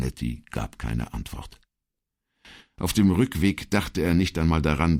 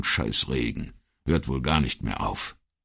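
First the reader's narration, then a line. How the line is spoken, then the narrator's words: Grumpy growl. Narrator (German): knurrte er in gewohnt missmutigem Ton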